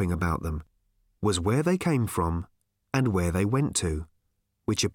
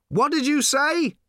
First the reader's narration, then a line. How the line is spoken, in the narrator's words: shouted Arthur